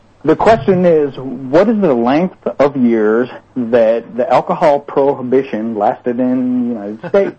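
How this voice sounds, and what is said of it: Southern drawl. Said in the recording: “Like the Southern drawl.”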